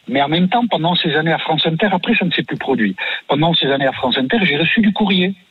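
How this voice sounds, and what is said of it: Regional French accent. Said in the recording (French): “les personnes qui m'ont embauché ont considéré que l'accent pouvait être un petit plus ... avec votre accent, vous parlez de politique”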